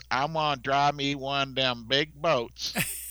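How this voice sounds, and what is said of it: Put-on deep southern US accent. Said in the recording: “that southern, you know, yeah. deep south accent.”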